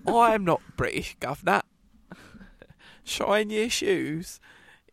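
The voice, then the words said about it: Exaggerated put-on Cockney accent. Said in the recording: “doing a Cockney accent... I'm just doing that voice that every American thinks we sound like”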